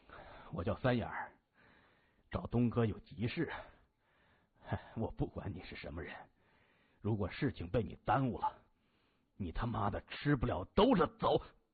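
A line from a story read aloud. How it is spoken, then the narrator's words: Cold laugh. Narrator (Chinese): 他冷声笑着说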